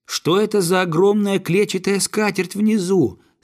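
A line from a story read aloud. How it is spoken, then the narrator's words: Loud question. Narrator (Russian): спросил он громко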